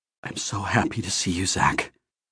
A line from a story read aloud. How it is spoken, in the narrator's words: he whispered, with a slight tremor in his voice